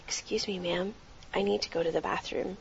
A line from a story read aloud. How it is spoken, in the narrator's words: softly said